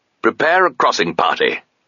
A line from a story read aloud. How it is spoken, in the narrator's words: snapped Horace